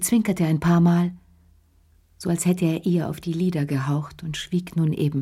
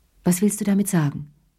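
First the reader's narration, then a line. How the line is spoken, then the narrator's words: Plain question. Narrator (German): fragte sie schließlich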